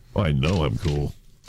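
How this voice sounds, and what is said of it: Exaggerated deep voice. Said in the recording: “do a deep voice”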